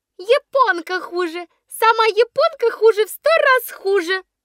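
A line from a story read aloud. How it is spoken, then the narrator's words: Squeaky. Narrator (Russian): пищала Шалуня Соболева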